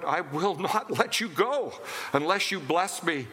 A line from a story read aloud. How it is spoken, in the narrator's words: he cries out